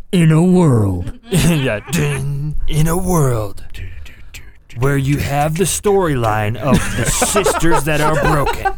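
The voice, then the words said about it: Deep movie-trailer narrator voice. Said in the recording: “You need to do the deep voice.”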